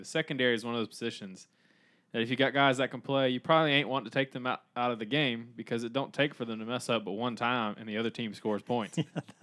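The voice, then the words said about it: Imitates another person's voice, Southern. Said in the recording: “his best Jeremy Pruitt impersonation ... I kind of started to get more Southern as I read it ... kind of got into character”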